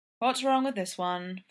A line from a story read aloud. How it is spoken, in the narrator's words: Flower sighs after the third try